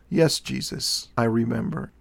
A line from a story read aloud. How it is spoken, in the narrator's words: replied softly